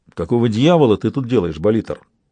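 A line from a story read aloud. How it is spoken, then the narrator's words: Plain question. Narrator (Russian): спросил он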